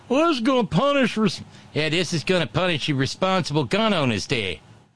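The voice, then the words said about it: Badly done mocking put-on accent. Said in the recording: “I'm sure that's a terrible accent.”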